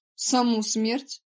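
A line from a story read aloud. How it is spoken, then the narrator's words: Scoffing snort. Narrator (Russian): фыркнул Прат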